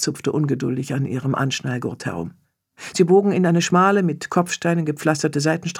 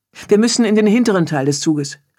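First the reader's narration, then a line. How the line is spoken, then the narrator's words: Called out to colleagues. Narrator (German): rief Sven seinen Kollegen zu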